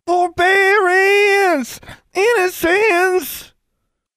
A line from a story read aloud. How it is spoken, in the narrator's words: his screaming